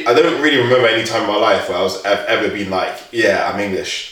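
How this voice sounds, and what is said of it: London English accent. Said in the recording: “when I say I'm from London, that explains the accent ... people who would hear me speak would say, yeah, you're English”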